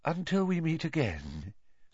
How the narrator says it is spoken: said Professor Trelawney faintly

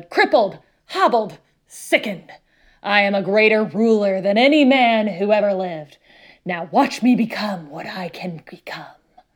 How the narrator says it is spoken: bellowed

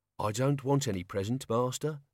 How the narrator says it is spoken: Albert sighed

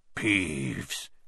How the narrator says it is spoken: he said in a hoarse whisper

